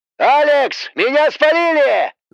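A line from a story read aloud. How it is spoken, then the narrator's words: Wailing. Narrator (Russian): завопил вирус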